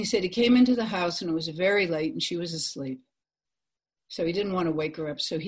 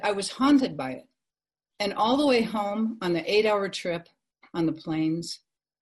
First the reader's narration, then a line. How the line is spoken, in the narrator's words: he said